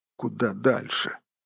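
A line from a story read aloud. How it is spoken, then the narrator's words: Muttering to himself. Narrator (Russian): бормотал хоббит себе под нос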